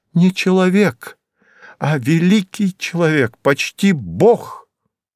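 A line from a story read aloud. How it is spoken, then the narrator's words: Grandiose exclamation. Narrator (Russian): с пафосом воскликнула она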